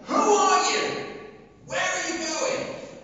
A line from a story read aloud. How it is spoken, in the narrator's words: this guard shouts again